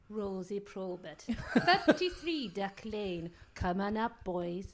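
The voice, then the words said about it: Put-on Welsh accent. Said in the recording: “I don't know what that accent was, by the way... my friend Pete could do a Welsh accent”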